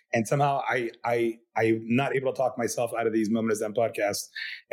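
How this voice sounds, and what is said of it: Rough, sick-sounding voice. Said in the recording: “I sound like a meth head because I'm getting over a terrible cold”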